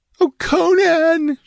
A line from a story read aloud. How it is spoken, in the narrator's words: she wailed